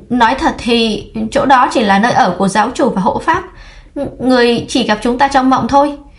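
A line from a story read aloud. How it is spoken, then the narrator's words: Stammering. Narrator (Vietnamese): Giọng nói kia lắp ba lắp bắp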